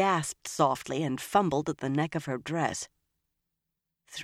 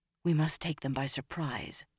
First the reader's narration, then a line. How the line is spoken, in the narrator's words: Nynaeve said softly